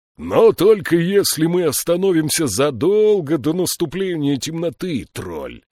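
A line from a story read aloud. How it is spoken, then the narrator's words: Roared. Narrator (Russian): проревел Слудик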